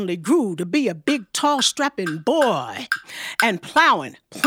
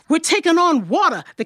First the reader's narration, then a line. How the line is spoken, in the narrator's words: the captain cried